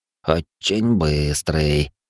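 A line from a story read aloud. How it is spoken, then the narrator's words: Muttering under breath. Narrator (Russian): пробурчал он себе под нос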